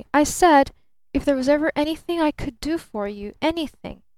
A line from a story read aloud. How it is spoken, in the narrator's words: grinned Barton more cheerfully